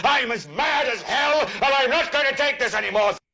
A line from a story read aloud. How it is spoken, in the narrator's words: yell